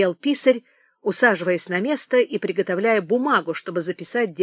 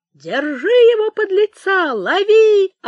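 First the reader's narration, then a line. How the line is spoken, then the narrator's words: Yelling. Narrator (Russian): орал Замараев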